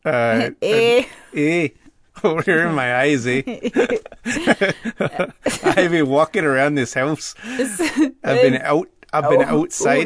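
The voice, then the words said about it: Put-on Canadian accent. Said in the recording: “he says it with a Minnesotan accent ... He's a Canadian.”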